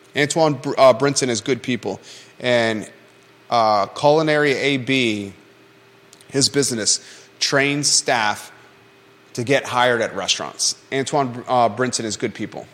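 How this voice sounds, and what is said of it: Strained, struggling voice. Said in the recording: “my voice is struggling right now”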